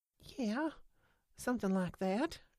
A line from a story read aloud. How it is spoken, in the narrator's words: she whispered